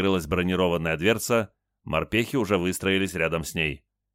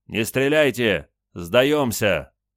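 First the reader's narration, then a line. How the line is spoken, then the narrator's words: Shouting. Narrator (Russian): из одной амбразуры закричали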